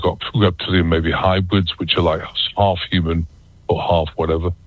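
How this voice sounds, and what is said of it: British accent. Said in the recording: “I'm still got a British accent”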